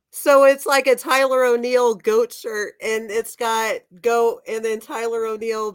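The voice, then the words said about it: Rough, sick-sounding voice. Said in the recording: “Excuse my voice. I'm trying to get over a strep throat.”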